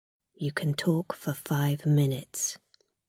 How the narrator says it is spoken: the guard said quietly

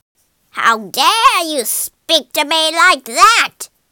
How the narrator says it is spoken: snarled the witch

